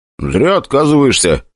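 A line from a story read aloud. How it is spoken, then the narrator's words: Smirking grunt. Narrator (Russian): Хмыкнул я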